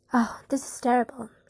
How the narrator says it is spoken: she moaned

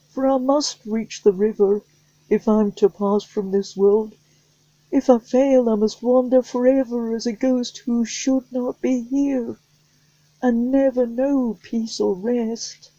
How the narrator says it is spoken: the boy cried

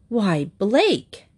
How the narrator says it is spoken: gasped Mrs

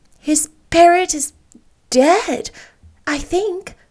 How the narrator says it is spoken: gasped poor Anne, who couldn't have felt sure of her own name at that precise moment

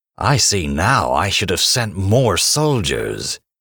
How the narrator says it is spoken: he sneered in disgust

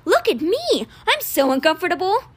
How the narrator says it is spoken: He exclaiming

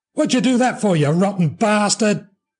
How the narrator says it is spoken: yelled after him

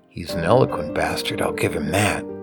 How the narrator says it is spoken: whispered Jimmy

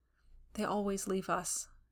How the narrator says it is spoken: she murmured

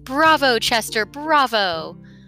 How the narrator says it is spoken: Harry Catt, who had crept into the Metropolitan Opera House a few times, knew how people acted there and shouted

